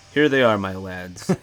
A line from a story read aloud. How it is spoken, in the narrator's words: he says